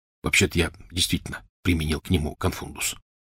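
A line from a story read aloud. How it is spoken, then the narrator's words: Whispered. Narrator (Russian): шепотом сказал Рон Гарри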